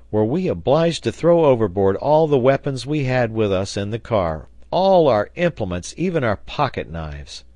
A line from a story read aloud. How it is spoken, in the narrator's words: cried Pencroft